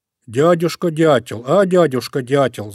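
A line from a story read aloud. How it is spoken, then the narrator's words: Shouting. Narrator (Russian): закричал Мишка-медвежушка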